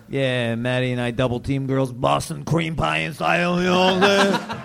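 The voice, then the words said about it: Brooklyn accent. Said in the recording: “does your accent get you laid? Your Brooklyn accent?”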